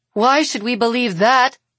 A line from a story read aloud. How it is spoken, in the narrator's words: Bree growls